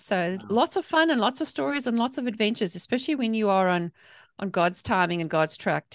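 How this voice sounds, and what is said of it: South African accent. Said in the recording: “I'm originally from South Africa, hence the accent”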